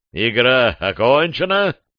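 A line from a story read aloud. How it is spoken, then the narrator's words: Deep bass voice. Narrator (Russian): пробасил распорядитель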